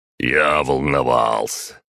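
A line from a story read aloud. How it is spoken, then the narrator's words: Deep bass voice. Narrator (Russian): пробасил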